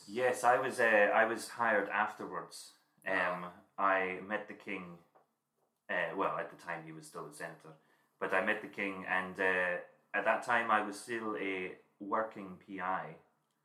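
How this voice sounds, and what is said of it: Put-on accent. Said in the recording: “It's really hard to do this accent”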